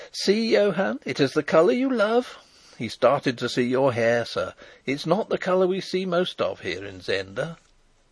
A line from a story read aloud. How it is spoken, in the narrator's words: the merry girl began to laugh as she called